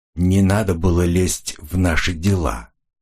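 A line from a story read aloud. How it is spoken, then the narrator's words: Icy, curt. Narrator (Russian): ледяным тоном отрезала Жанна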